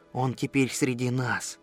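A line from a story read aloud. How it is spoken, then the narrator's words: Whisper. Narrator (Russian): Федор прошептал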